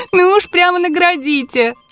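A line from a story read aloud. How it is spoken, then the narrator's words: Laughing girl. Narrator (Russian): засмеялась девка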